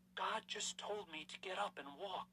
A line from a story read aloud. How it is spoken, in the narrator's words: she gasped